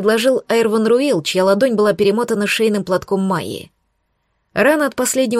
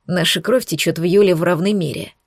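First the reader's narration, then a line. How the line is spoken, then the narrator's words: Gloomy remark. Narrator (Russian): мрачно заметил он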